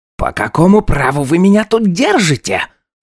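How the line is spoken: Indignant shriek. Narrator (Russian): Возмущенно взвизгнул второй пленник

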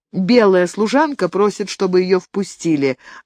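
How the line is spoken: Plain. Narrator (Russian): ответила негритянка

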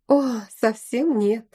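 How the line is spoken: Sigh. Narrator (Russian): вздохнула

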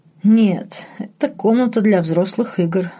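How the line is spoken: Laughing. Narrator (Russian): рассмеялся Марк

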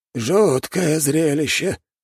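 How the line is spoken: Old man's mutter. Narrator (Russian): пробормотал старик в белом

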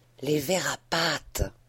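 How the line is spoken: Breathed softly. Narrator (French): souffla Homais

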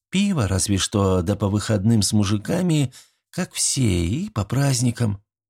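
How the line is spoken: Sighing. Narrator (Russian): вздохнула

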